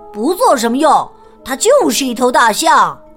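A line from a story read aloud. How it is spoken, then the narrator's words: Loud. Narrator (Chinese): 埃里克大声说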